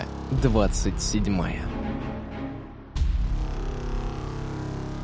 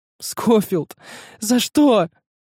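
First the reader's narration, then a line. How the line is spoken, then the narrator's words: Cry through covered face. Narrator (Russian): вскрикнула Рада, закрыв лицо руками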